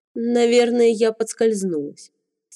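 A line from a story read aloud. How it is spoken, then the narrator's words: Calm. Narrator (Russian): спокойно произнесла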